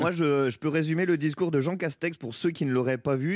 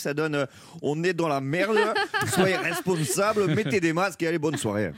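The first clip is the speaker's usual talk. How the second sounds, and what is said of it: Imitates a politician with exaggerated accent. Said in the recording (French): “il n'a pas un accent comme ça ... il a un léger accent ... on me l'a un peu imposé cet accent”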